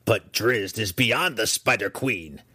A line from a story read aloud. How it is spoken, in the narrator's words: Breeze snapped back